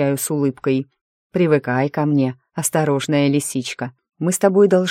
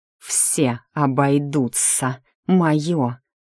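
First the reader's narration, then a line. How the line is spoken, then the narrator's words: Snakelike hiss. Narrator (Russian): Язык невольно переходит на змеиное шипение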